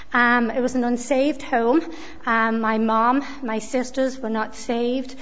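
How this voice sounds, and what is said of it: Mixed Liverpool accent. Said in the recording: “you could probably tell by my accent, but I have a wee bit of a mixture of an accent now. There's a little bit of this and a little bit of that... born and raised in the city of Liverpool”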